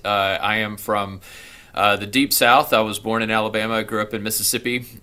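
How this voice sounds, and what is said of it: Southern US accent. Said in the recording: “you will probably start to hear the vestiges of my Southern accent or my Southern accent outright”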